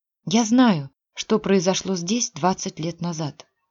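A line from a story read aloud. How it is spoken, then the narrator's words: Quiet. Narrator (Russian): тихо сказала Женя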